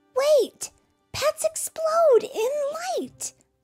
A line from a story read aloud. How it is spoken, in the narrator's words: Ophelia cried